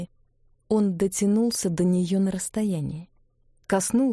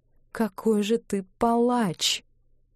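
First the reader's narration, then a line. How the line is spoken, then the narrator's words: Tearful. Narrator (Russian): сказала она сквозь слезы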